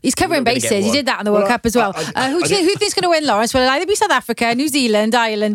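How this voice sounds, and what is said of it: Welsh accent. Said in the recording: “we love your beautiful Welsh accent.”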